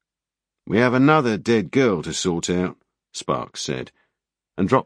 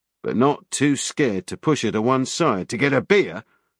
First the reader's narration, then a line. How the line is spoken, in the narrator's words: Sparks snapped